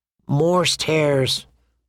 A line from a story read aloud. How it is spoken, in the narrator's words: said Sam miserably